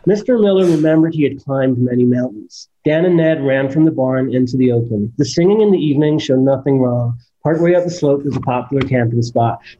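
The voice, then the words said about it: British speaker doing American accent. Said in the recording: “what your American accent sounds like? ... 41 American sentences that you have to read before you do any American accent.”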